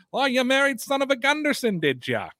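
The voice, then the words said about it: Put-on Fargo North Dakota accent. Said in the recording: “that's what they sound like in Fargo in North Dakota ... you guys always act like that's the Canadian accent”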